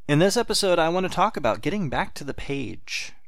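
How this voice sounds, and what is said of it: Southern accent. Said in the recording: “doing a podcast with a southern accent.”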